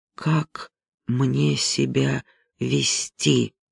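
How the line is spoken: Quiet question. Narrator (Russian): тихо спросил я друга

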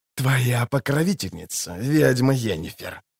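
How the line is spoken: Venomous, through teeth. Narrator (Russian): ядовито процедил он

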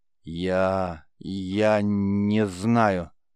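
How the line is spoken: Stammering mumble. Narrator (Russian): заикаясь, промямлил Геллерт

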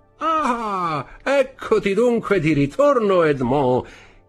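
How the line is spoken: Cheerful exclamation, Marseille accent. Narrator (Italian): esclamò con un pronunciato accento marsigliese e con un largo sorriso

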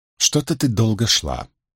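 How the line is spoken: Irritated remark. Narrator (Russian): с раздражением заметила Бэйр

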